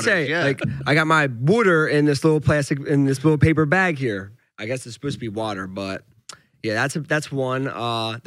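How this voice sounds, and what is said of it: Philadelphia accent. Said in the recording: “how come you talk just like Eddie Alvarez? ... That Philly accent is unique.”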